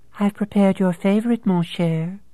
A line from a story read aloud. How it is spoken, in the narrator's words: cooed Sugar